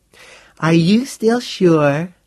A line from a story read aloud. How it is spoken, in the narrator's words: the girl said purringly